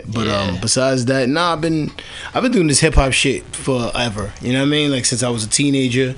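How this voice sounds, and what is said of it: New York accent. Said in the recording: “I'm originally from New York City, as you could probably tell by my accent”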